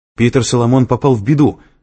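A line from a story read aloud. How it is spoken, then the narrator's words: Exclaimed. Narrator (Russian): воскликнул Лэнгдон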